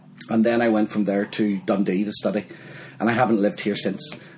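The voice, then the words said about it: Northern Irish accent. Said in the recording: “your accent is a Northern Irish accent”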